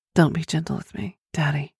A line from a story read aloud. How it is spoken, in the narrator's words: whispered